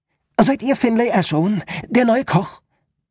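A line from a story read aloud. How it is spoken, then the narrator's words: Breathless call. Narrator (German): rief sie leicht außer Atem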